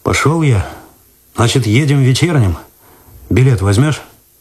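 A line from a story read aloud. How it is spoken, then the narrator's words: Uncertain speech. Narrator (Russian): неуверенно сказал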